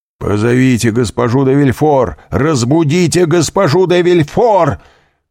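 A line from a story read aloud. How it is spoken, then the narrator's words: Shouting. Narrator (Russian): кричал королевский прокурор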